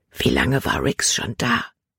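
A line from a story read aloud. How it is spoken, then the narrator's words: Whispered. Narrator (German): flüsterte sie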